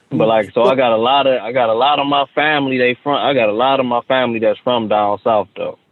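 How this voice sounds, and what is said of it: Southern American twang. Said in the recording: “the southern twang I'm hearing now... the draw”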